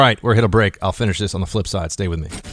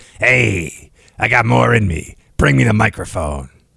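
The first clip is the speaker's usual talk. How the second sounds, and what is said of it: Imitates another person's voice. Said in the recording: “my Larry King impression.”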